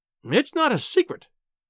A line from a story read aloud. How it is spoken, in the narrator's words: she cried